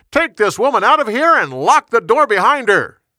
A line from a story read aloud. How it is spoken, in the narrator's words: He shouted